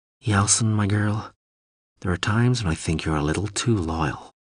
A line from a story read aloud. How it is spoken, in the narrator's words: said to herself quietly